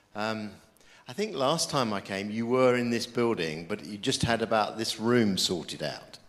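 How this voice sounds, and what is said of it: British English accent. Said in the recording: “As you can tell, I'm a Brit. I haven't got the accent that you guys have got.”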